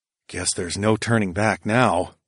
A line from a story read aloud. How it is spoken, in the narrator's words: I muttered as my stomach sank